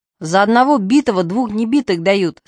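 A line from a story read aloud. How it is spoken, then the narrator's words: Men barking in unison. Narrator (Russian): слаженно гаркнула мужская часть собрания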